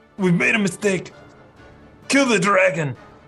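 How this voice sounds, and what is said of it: Slightly Russian-accented character voice. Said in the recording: “My Dwarvish has a slightly Russian accent.”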